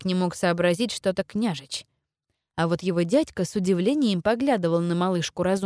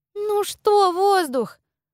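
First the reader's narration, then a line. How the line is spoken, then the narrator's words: Exasperated exclamation. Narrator (Russian): Закатив глаза, воскликнула Дуня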